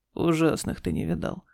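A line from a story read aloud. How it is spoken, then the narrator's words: Grumbled. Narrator (Russian): проворчал Игорь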